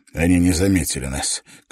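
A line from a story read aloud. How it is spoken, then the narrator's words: Relieved sigh. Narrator (Russian): Клифф облегченно вздохнул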